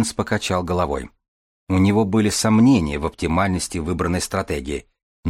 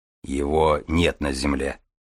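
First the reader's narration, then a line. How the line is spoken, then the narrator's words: Gruff mutter. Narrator (Russian): буркнул Железовский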